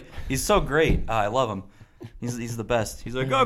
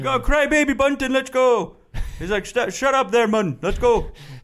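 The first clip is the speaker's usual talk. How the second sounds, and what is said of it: Welsh accent mixed with Jamaican. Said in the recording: “he's a Welsh fairy ... A little Jamaican thrown in there. ... a little bit of Jamaican. They don't have the Welsh accent down. I got to mash it with the other ones that I know.”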